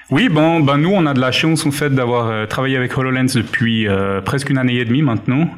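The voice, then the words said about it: Swiss Vaudois French accent. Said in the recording (French): “Vous entendez qu'il vient de Zurich, enfin pas loin. ... On entend qu'il vient de Lausanne. ... accent vaudois”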